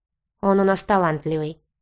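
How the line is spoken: Grumbling with hidden smile. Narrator (Russian): проворчал Закари, пряча в уголках губ улыбку

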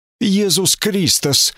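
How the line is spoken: Frightened exclamation. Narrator (Russian): воскликнул Катфаэль в страхе

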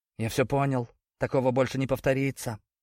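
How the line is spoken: Servile mumble. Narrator (Russian): пробормотал он подобострастно

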